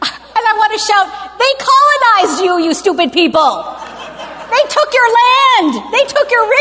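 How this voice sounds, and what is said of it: Usual voice. Nothing is said of it.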